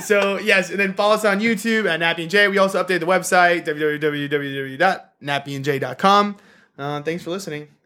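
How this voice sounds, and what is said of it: Game show host voice. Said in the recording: “It's my game show voice now.”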